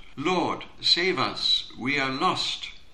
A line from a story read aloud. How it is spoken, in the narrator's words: cried out